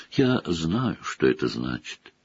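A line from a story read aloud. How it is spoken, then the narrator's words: Quiet. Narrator (Russian): тихо проговорила она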